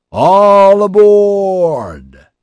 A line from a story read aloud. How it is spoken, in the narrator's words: He bellowed